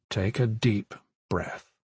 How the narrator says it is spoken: he said quietly

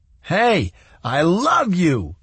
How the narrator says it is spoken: he yelled

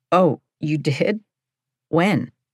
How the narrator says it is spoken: My voice was breaking

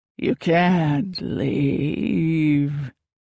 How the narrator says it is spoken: the voice moaned from behind me

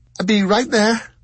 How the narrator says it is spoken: she called desperately

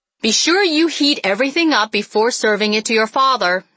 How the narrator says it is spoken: yelled

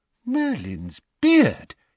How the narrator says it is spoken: exclaimed Mr

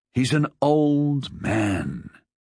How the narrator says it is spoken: Ned said wearily

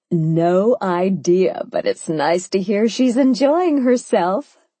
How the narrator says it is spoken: Sophia said, laughing herself

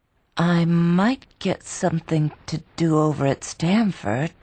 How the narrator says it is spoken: she faltered, as if knowing that he knew she had no hope

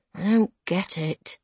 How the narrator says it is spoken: Dad mumbles

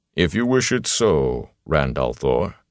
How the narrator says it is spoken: Loyal said stiffly

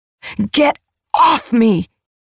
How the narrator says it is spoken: I shouted

